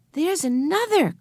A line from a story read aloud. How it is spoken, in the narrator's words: cried Benny